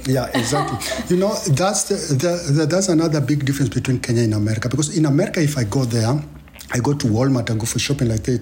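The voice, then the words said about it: Non-American, Kenyan English accent. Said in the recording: “People know from my accent I'm not American. ... they know this guy is not American”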